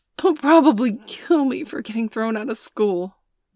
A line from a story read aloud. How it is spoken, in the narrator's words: Bailey sobbed